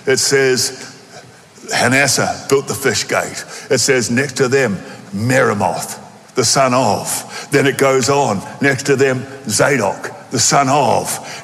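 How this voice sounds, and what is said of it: Australian accent. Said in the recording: “in my Aussie accent”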